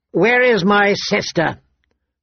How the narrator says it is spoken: Viserys shouted, his voice thick with wine

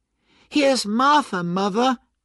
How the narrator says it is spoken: cried the two young Cratchits happily

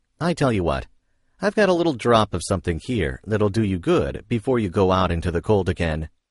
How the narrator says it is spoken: feeling kindly, he said jokingly

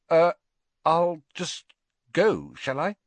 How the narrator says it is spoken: Harry stammered

